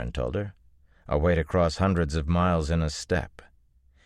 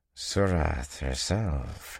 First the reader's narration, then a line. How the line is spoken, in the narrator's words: he murmured